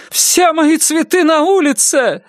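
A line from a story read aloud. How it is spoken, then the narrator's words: Shout. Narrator (Russian): закричала Ленор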